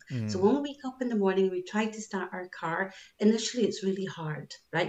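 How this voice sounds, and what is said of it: Scottish accent. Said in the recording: “I'm from Scotland, as you can tell by my accent,”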